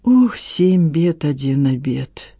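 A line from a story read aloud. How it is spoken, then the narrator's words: Sighing. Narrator (Russian): вздохнул Порфирич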